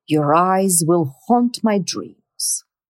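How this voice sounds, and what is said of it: Exaggerated dramatic voice. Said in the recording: “in your most dramatic voice”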